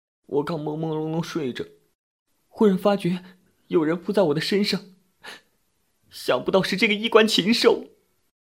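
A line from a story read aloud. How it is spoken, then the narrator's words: Crying complaint. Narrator (Chinese): 蓬头散发的沈小娜哭着向服务员诉说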